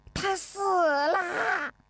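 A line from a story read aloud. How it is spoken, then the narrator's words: Shouting. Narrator (Chinese): 陈应凤喊道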